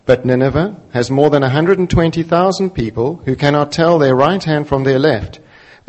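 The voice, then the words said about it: South African accent. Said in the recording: “God speaks with a South African accent.”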